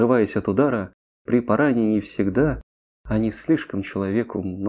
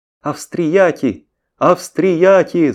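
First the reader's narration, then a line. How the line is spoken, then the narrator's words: Shouting with all strength. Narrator (Russian): закричал, что есть сил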